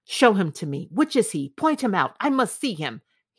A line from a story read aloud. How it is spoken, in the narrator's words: he exclaimed